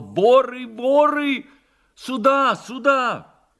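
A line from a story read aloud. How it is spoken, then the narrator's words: Shouting at top of voice. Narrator (Russian): закричал во все горло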